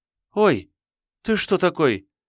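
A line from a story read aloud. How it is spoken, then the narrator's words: Frightened cry. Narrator (Russian): испуганно вскрикнула Тошка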